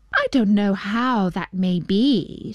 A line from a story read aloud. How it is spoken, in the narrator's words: said she